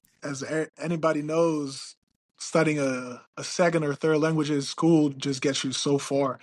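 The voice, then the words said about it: Slight foreign accent in English. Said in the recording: “I still have a little accent here and there ... the accent is unique ... the way that Italian and Spanish sounds”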